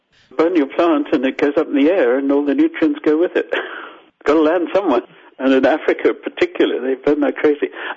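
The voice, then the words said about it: Zimbabwean accent. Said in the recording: “I'm Zimbabwean, as you probably got from my accent.”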